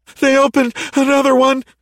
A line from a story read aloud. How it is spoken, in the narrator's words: Daniel gasped